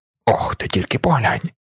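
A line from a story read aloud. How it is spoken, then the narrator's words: Whisper. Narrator (Ukrainian): шепотів він мені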